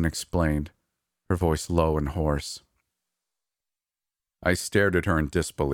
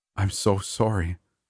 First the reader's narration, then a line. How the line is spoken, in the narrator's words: added breathlessly